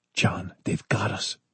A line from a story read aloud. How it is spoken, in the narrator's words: Maury said softly